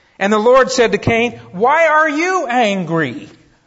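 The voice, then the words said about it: Raised, louder voice. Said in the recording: “I'm raising my voice.”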